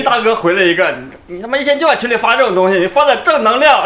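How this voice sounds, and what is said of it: Heavy Northeastern Chinese accent. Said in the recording (Chinese): “你东北口音为啥这么重啊”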